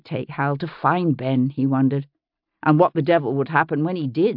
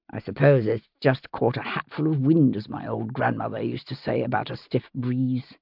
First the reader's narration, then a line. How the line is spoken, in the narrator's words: he muttered, trying to ignore the spasm of alarm